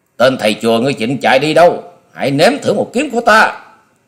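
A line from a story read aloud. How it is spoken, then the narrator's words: Roaring like hungry tiger. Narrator (Vietnamese): Long Điểu Kiếm Khách gầm như một con cọp đói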